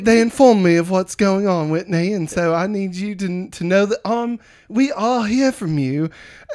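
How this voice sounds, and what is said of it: Put-on accent for a character. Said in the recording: “Your accent.”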